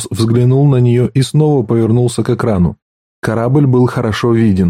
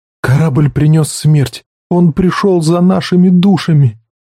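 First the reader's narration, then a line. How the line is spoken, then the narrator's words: Trembling voice. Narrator (Russian): Дрожащим голосом она сказала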